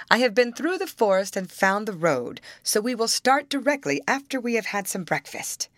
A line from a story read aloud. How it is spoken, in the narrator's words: cried the prince